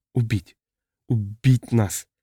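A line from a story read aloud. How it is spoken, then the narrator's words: Whisper. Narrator (Russian): прошептала она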